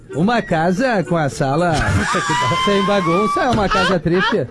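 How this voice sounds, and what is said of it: Imitates another person's voice. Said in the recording (Portuguese): “a melhor imitação do Cortella ... o Cortella é a melhor. Fecha os olhos pra tu ver o Cortella”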